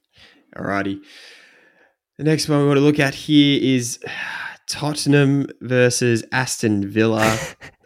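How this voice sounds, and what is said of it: Glum, worried, downbeat voice. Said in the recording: “I am worried, if you couldn't tell by my voice. ... I don't know if you're worried or depressed.”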